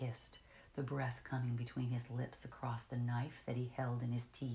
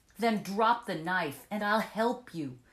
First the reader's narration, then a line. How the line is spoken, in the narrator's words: I shouted back in his face